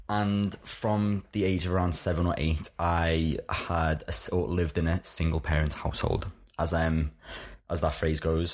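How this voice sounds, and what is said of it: Liverpool accent. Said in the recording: “I was brought up in Liverpool, in case anyone hadn't clicked on the accent just yet.”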